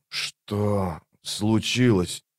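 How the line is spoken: Hoarse wheeze. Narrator (Russian): прохрипел он

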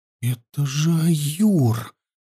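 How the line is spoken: Whisper holding back shout. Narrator (Russian): подавив порыв, заорать в голос, прошептал Анил

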